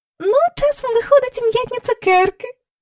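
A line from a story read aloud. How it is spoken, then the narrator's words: Happy. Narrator (Ukrainian): радісно сказала місіс Корі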